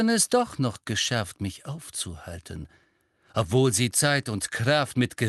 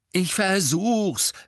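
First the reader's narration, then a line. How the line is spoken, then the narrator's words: Angry speech. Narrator (German): sagte Harry zornig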